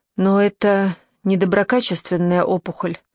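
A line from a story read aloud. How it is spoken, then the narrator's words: Muffled voice. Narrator (Russian): ответил он глухим голосом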